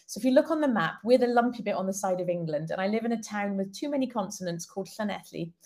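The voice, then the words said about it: Welsh-accented English. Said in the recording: “the one with the funny accent”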